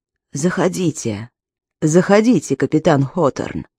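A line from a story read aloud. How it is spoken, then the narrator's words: Old man, quiet but clear. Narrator (Russian): сказал лежащий в постели пожилой мужчина тихим, но ясным голосом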